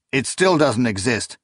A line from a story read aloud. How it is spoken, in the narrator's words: Akamian blurted, his voice rising